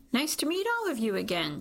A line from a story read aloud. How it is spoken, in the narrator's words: she says brightly